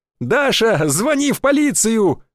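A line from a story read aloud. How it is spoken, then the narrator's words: Shrill squeal, ringing laughter. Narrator (Russian): взвизгнул воробей и залился звонким хохотом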